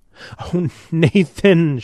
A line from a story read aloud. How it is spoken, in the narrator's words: she said miserably, sniffing